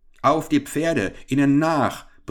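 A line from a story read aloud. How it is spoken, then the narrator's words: Furious roar, cheated man. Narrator (German): brüllte der Geprellte rasend vor Wut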